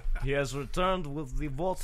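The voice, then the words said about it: Failed German accent sounding Russian. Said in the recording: “A decent attempt at a Russian accent ... I was sort of shooting for German ... Russian came out ... I rushed it. It came out wrong.”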